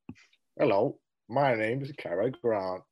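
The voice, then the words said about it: Imitates another person's voice. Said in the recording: “my Cary Grant impression”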